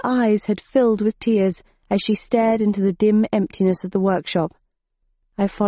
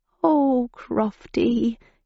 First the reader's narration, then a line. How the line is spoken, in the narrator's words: she murmured